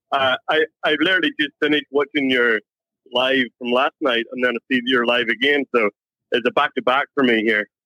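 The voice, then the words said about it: Irish accent. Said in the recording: “Not quite the right accent... From Ireland.”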